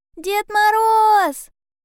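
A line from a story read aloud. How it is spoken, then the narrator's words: Shout. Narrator (Russian): крикнул ёжик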